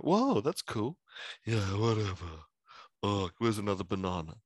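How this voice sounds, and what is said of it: Imitates another person's voice. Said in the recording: “Good James impression.”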